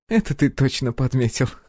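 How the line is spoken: Laughing loudly. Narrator (Russian): расхохоталась Наталья

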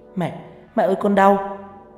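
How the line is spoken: Crying out in pain. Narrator (Vietnamese): Mai kêu lên oai oái

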